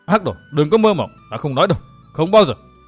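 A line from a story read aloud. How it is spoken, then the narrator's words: Strained loud shout. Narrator (Vietnamese): Dương Viễn gắng gượng hét to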